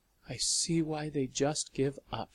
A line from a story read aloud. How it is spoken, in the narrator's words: she had said